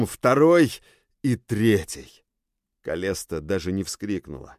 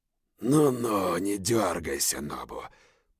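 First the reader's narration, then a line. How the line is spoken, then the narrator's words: Hoarse wheeze. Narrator (Russian): прохрипел Зойт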